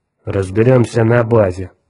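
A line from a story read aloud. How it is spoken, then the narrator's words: Grumbling. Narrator (Russian): проворчал землянин Лукас Бревер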